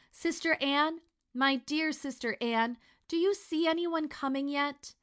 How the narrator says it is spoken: the poor trembling girl below every minute cried out

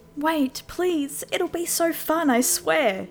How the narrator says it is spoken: pleaded

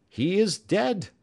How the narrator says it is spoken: cried several voices

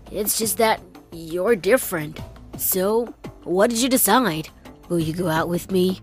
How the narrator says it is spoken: he mumbled uncertainly

